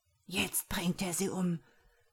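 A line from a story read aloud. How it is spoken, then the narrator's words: Horrified whisper. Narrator (German): flüsterte Joha entsetzt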